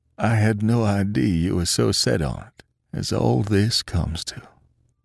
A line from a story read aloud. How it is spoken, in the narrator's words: said hoarsely